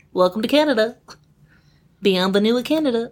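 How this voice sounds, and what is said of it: Impression of Canadian commercial beaver. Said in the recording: “It was such a good impression... That was really good.”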